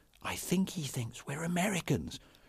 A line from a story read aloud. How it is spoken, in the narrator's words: I whispered